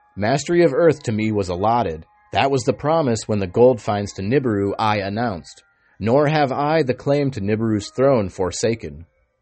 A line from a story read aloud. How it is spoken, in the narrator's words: Alalu stepped, shouting